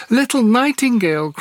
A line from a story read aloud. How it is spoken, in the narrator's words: cried the girl, raising her voice